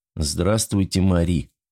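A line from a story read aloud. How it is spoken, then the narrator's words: Sad, worn-out voice. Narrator (Russian): грустно сказал Денис Богданов, выглядевший так, словно по нему проехал грузовик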